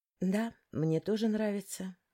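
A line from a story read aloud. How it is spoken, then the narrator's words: Sighing. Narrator (Russian): вздохнула я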